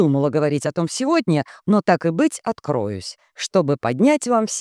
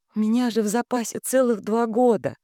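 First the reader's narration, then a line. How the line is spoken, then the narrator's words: Faint babble, drowned out. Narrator (Russian): пролепетала Алисия, но за шумом радостных обсуждений ее никто не услышал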